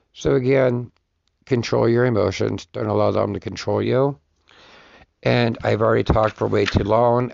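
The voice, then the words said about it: Hoarse, nearly lost voice. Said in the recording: “my voice is pretty much gone”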